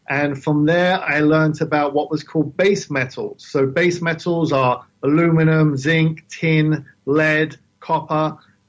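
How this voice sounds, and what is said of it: London British accent. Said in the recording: “You can probably tell I have an accent, right? I'm from the London, UK. I grew up in London.”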